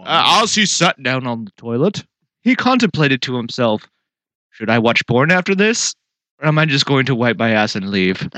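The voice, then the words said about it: Poor imitation of another person's voice. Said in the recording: “That's a terrible Morgan Freeman.”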